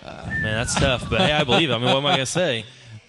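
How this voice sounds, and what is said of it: Southern American accent. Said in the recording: “In your southern accent.”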